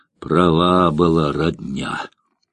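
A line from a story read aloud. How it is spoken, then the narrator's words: Sighing. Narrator (Russian): вздохнул цыган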